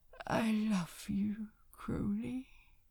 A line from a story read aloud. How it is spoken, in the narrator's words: murmured